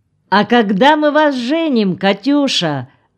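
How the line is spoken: Sudden shout. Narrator (Russian): вдруг крикнул чернявый

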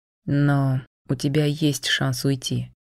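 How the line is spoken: Quiet speech. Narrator (Russian): негромко сказал он

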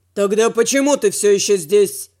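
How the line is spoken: Barking snap. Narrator (Russian): Рявкнул я

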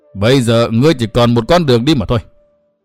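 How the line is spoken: Cold, merciless. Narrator (Vietnamese): Hữu Cầu Tất Ứng lạnh lùng không dung tình chút nào hết

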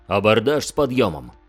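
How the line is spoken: Barking shout. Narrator (Russian): рявкнул Фафнир

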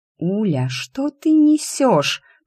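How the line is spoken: Hiss. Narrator (Russian): прошипела Лиська

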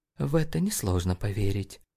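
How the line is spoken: Mumbled. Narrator (Russian): пробормотала Джейн

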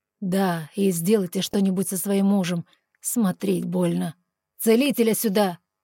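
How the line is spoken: Barking to no one. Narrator (Russian): Рявкнул он, особо никому не обращаясь

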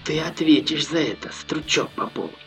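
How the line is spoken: Distinct whisper, spitting blood. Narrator (Russian): отчетливо прошептал парень, выплевывая кровь в перемешку с пылью

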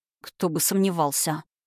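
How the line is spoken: Through gritted teeth. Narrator (Russian): Процедил Роман сквозь зубы

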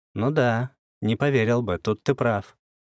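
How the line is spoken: Reluctant agreement, heavy sigh. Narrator (Russian): вынужден был согласиться, тяжело вздохнув

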